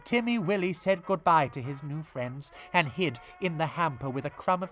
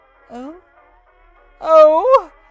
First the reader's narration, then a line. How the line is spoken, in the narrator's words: cried Timmy Willie